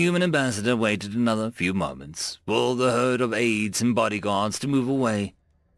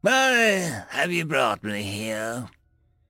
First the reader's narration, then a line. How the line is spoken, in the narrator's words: growled